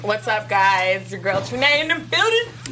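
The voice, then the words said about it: Put-on black girl accent. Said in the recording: “you better stop doing that black girl accent. ... It's the black girl effect.”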